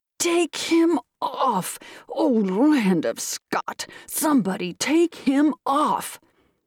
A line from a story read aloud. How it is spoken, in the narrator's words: Middlerib with a howl that made the windows rattle roared